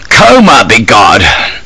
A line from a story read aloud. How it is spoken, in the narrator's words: would exclaim